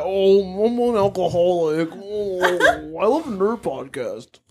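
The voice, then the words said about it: Imitates another person's voice. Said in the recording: “your impression of Nate”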